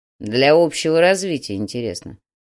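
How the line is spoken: Grumbled. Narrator (Russian): буркнул Слановский

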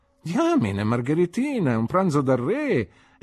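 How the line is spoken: Exclaimed. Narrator (Italian): esclamò

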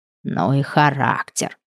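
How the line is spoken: Hiss. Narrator (Russian): прошипела Глашка

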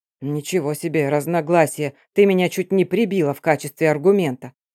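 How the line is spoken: Grumbling giant. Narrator (Russian): проворчал рыжий великан

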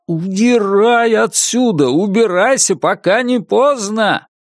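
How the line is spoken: Powerful yell. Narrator (Russian): мощный голос у него в голове завопил

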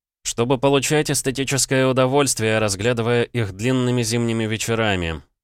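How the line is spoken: Sarcastic reply. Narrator (Russian): язвительно ответил я

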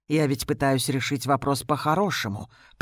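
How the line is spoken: Sickly-sweet soft voice. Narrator (Russian): приторно-мягким голосом произносит он

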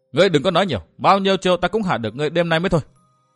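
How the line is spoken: Stern loud shout. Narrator (Vietnamese): Đường Đỗ Quyên nghiêm giọng quát lớn

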